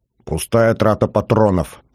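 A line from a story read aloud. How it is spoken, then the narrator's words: Muttered through teeth. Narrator (Russian): наконец процедил главнокомандующий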